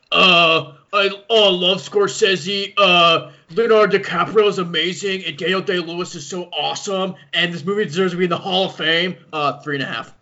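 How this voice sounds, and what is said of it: Imitates another person's voice. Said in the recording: “Here's my impression of Chris.”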